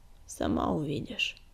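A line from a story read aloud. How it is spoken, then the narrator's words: Gloomy reply. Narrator (Russian): мрачно ответил Огнегриф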